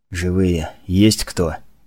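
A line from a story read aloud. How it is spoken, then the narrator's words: Soundless whisper. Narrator (Russian): беззвучно прошептал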